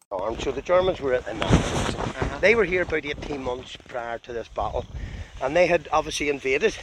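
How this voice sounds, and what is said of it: Northern Irish accent. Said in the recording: “he tells the story with that wonderful Northern Irish accent.”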